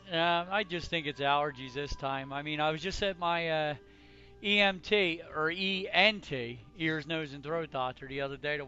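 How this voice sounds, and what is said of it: Strained, fading voice. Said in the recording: “losing my voice again”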